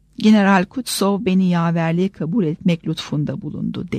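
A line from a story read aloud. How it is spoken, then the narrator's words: Plain. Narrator (Turkish): dedi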